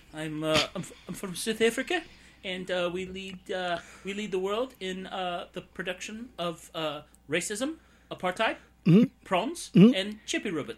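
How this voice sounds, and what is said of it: Put-on South African accent. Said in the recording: “Was that a South African accent just then?”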